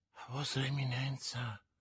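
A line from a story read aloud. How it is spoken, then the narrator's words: Murmured. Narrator (Italian): mormorò Bonacieux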